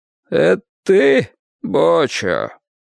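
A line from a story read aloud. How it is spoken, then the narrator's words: Sudden hoarse voice. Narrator (Russian): вдруг раздался хриплый голос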